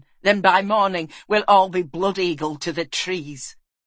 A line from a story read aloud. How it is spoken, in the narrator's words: snapped Galen